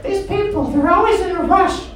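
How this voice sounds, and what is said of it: Put-on old lady voice. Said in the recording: “That's my old lady voice, I'm sorry. I can't do so well.”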